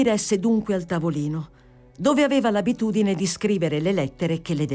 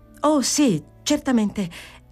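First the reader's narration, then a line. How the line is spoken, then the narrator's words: Exclaiming. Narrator (Italian): esclamò Fanny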